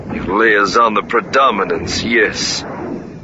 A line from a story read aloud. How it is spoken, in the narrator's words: Lando said, his voice both disgusted and more than a little bit nervous